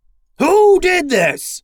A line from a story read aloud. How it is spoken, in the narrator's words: roared Fivetails